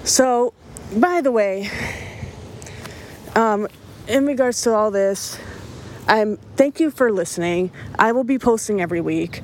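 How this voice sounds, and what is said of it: Out of breath while talking. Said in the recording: “That's why I sound out of breath. I'm not nervous. I'm just extremely out of shape.”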